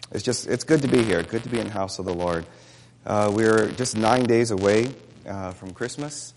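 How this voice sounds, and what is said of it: Hoarse, sore-throated voice. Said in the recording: “you'll have to forgive my voice... I've been suffering through kind of a sore throat”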